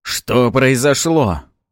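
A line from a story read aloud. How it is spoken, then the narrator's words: Frightened shout. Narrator (Russian): испуганно выкрикнул Арманов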